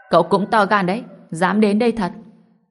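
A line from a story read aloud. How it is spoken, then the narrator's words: Cold old woman. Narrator (Vietnamese): Bà cụ cũng lạnh lùng nhìn Ngô Bình rồi nói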